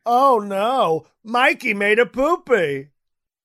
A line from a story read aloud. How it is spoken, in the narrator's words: Trump yelling